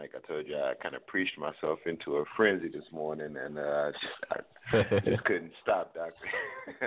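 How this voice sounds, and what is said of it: Hoarse voice. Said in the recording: “I'm a little hoarse today, man. ... so I don't mind being a little hoarse”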